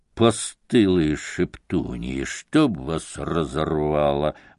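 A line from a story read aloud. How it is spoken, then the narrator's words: Muttering. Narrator (Russian): бормотал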